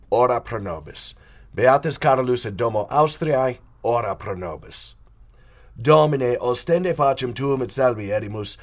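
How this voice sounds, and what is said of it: Gravelly, hoarse voice. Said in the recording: “yes, I am still sick. That's why my voice sounds different ... I'm not stuffed up ... the gravelly voice”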